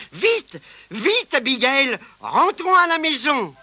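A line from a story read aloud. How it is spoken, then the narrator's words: Crowd exclaiming. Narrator (French): s'écria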